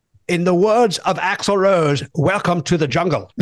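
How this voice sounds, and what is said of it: Attempted British accent, not very good. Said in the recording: “I will not do a good British accent”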